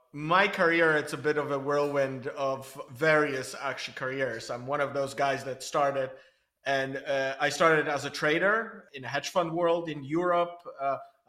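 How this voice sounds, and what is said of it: Polish accent. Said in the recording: “you can probably sense it from the accent, I'm Polish, but I grew up in Belgium and in Israel”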